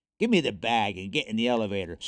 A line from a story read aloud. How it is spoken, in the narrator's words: snarled the kidnapper